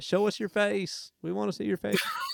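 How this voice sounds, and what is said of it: Put-on Iowa accent. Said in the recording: “Good Iowa accent.”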